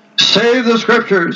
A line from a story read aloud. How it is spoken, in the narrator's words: exclaimed Cajetan